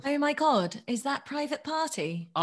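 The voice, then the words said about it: Put-on Essex accent. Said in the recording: “it's that Essex one you do. It's like you're a different person. You get possessed by somebody else.”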